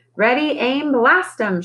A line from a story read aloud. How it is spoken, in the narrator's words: she hollered